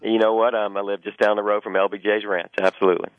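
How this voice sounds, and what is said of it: Texas accent. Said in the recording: “I hear that accent... No, not with that accent, buddy... I got to Texas as quick as I could... raised in the Texas Hill Country”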